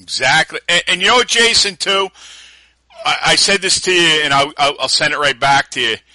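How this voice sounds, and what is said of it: Tough-sounding New York accent. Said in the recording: “most people love the New York accent. They'll be like, it sounds tough, man ... I love that tough New York sounding accent”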